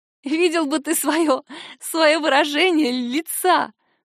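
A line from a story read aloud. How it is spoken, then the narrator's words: Speaking through laughter. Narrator (Russian): кое-как произношу я сквозь смех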